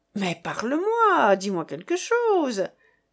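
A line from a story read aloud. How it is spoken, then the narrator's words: Exclaimed. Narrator (French): s'écriait de Pont-Marie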